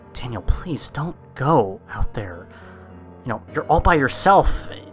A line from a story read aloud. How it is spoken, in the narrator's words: Allie, pleading with me, saying